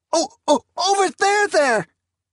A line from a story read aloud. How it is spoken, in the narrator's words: Hurtada whimpered